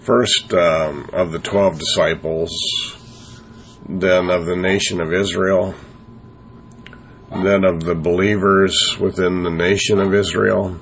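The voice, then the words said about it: Congested, strained voice. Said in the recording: “Sorry about my voice. I had a little sinus problems”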